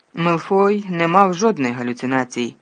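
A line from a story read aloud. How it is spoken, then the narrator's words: Barking. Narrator (Ukrainian): гаркнув Снейп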